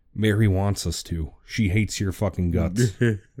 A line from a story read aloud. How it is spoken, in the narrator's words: Smitty quietly said